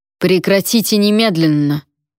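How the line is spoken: Thundering voice. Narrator (Russian): прогремел Вонвальд

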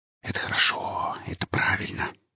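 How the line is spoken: Whisper. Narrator (Russian): прошептал сталкер

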